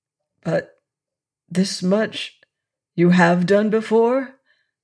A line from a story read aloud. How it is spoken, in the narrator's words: said I hoarsely